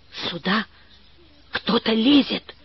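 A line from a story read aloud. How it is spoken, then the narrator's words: Whisper. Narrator (Russian): шепнула Валя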